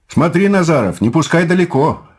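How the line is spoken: Commander shouting. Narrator (Russian): крикнул воинский начальник

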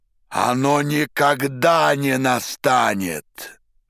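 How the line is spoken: Terrible shout. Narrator (Russian): закричал Пилат таким страшным голосом

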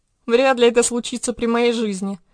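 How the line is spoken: Laughing pharaoh. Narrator (Russian): рассмеялся фараон

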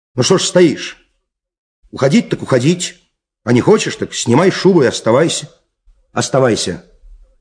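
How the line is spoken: Stern annoyed shout. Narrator (Russian): досадуя на свою бесхарактерность, он крикнул ей сурово

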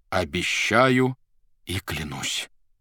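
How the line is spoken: Solemn. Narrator (Russian): торжественно произнес Иван

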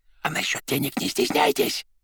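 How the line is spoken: Whisper. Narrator (Russian): шепотом добавил он

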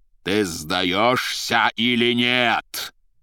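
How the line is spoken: Terrifying shout. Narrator (Russian): прокричал страшным голосом Воланд

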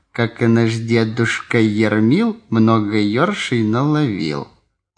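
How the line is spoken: Insistent soft refrain. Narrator (Russian): назойливо и мягко ползли в уши слова

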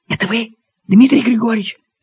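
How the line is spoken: Woman's whisper. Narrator (Russian): спросил женский шепот

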